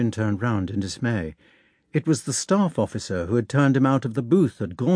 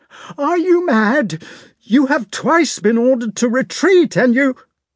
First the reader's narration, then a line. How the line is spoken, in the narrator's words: He was shouting in a gasping voice